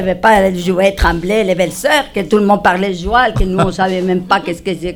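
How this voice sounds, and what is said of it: Regional French accent. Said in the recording (French): “vous m'entendez parler, j'ai un accent”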